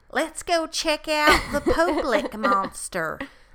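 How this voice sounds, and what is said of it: Put-on Kentucky Southern accent. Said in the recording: “He needs a southern accent. ... I don't know if I can do a Kentucky accent. ... Much better. More believable.”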